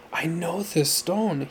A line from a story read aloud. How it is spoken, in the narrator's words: he said in an excited voice